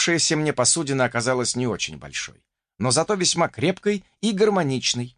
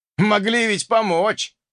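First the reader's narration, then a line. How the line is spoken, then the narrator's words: Snorted. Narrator (Russian): хмыкнул увидевший мои потуги Альф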